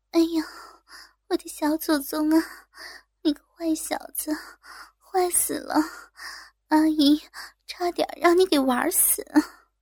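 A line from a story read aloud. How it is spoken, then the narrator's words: Breathless, coy panting. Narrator (Chinese): 呼吸的急促，娇喘着说道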